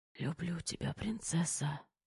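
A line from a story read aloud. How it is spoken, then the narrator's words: Weak exhausted whisper. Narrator (Russian): из последних сил прошептал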